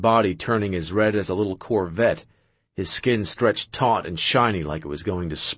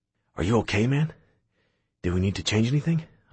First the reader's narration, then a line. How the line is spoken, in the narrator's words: whispered pointedly in his ear